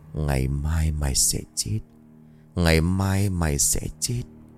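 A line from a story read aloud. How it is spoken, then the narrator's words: Inaudible smirking murmur. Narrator (Vietnamese): Trành miệng cười nhếch lên, khẽ nói không ai nghe thấy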